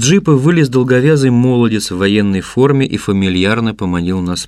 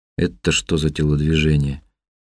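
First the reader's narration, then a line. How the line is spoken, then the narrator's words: Low words through teeth. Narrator (Russian): процедил я в полголоса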